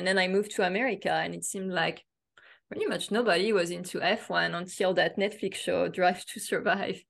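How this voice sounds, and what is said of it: French accent. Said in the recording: “I grew up in France, as you can hear from my accent”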